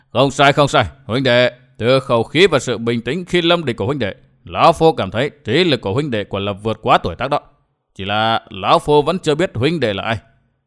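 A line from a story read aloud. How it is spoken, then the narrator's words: Sudden loud laughter. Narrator (Vietnamese): Hoàng Y Nhân, Tề Phi bỗng cười lớn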